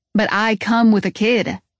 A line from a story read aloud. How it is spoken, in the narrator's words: say, my voice getting louder